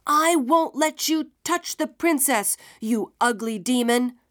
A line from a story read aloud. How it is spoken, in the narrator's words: shouted Isunboshi